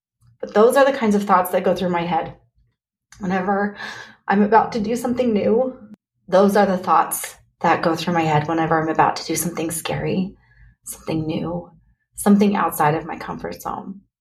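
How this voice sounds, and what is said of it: Emotional, choked-up voice. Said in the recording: “I'm sorry to get emotional.”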